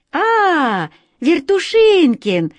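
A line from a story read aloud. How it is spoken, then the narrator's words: Cheerful, carefree. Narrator (Russian): весело и беспечно сказала Катя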